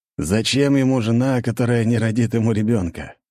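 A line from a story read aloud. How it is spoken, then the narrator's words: Snorting scoff. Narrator (Russian): хмыкнул Георгий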